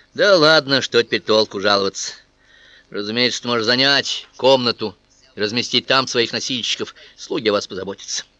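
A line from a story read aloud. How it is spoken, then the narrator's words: Dejected, fading anger. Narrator (Russian): Потом порыв злобы пошел на убыль, и она упавшим голосом продолжила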